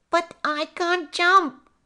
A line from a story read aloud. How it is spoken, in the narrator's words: The mouse sadly squeaked